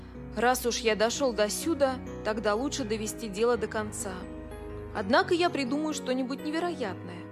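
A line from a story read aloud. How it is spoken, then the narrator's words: Deep sigh, thoughtful. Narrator (Russian): Билл глубоко вздохнул, размышляя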